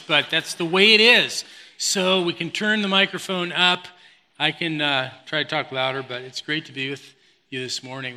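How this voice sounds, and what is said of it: Hoarse, fading voice. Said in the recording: “losing my voice. This is a really bad time to lose my voice”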